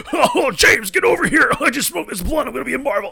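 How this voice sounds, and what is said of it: Imitates another person's voice. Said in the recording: “my Seth Rogen impression”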